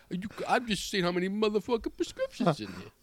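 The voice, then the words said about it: Imitates another person's voice. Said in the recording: “Can you do your Tracy Morgan?”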